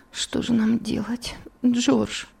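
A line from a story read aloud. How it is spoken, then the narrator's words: Weak voice. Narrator (Russian): слабым голосом произнесла Элиза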